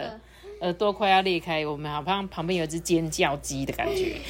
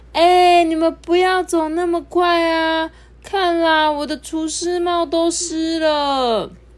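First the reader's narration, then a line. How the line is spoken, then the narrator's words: Loud shouting. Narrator (Chinese): 吉诺大声的叫着说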